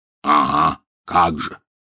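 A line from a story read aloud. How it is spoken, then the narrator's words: Snort again. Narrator (Russian): снова хмыкнул Хагрид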